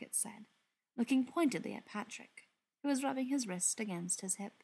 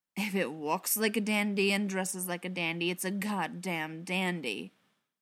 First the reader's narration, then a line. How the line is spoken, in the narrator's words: growled